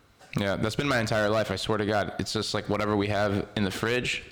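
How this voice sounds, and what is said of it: Usual voice. Nothing is said of it.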